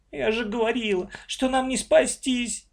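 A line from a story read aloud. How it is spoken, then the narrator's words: Sobbing. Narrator (Russian): всхлипнула Маша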